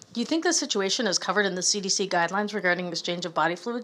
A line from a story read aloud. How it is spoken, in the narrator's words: she asks